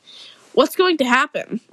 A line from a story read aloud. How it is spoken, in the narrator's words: said nervously